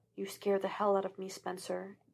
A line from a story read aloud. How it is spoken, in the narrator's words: he whispered